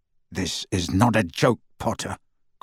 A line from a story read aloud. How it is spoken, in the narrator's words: growled Scrimgeour